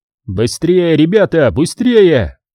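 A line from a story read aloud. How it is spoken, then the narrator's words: Shouting. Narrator (Russian): кричал он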